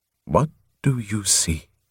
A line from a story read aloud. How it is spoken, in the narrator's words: Prothol asked softly